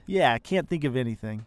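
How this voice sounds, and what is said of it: Sarcastic delivery. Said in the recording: “Are you being sarcastic? ... Oh, yes, I'm being sarcastic.”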